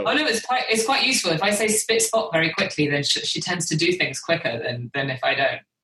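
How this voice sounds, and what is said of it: British accent. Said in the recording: “I'm the one with the British accent.”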